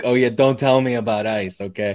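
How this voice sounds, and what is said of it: Put-on New York accent. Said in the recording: “a New York accent or something”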